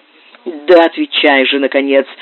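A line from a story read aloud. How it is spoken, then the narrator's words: Angry exclamation. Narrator (Russian): гневно воскликнул Стефан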